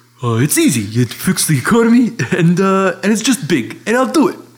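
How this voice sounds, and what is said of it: Imitates another person's voice. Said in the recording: “my Donald Trump impression.”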